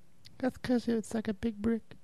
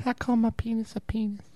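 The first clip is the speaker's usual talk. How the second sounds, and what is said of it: Mike Tyson impression. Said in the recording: “an incredible Mike Tyson impersonation”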